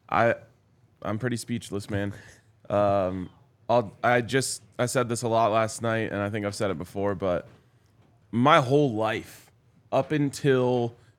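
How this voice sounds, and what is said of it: Partly lost, strained voice. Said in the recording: “If I yell too loud, it's going to make my head hurt again ... is your voice gone? ... My voice is a little bit gone.”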